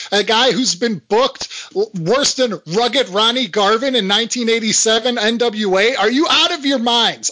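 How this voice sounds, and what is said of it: Yelling, angry loud voice. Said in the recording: “I'm yelling”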